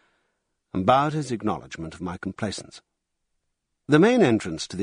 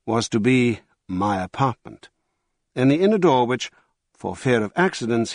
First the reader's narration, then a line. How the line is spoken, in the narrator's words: said